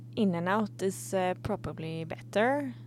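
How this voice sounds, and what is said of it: Put-on Swedish accent. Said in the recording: “Do a Swedish accent right now for, like, the next 10 seconds”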